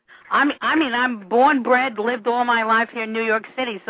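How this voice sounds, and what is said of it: New York accent. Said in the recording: “I detect the accent, New York.”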